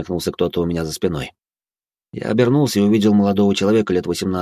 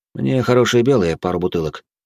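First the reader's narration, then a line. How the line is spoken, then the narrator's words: Calm. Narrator (Russian): спокойно ответил я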